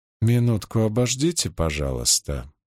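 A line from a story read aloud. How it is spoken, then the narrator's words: Mumbled. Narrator (Russian): пробормотала Риана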